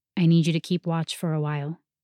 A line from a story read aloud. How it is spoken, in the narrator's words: he said